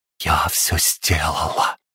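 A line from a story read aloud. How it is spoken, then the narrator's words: Mysterious whisper. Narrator (Russian): таинственно зашептала она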